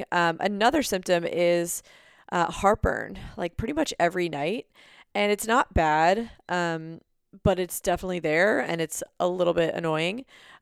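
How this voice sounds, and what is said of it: Slightly raspy voice. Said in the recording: “My voice is a little raspy ... I might be getting like the littlest bit sick”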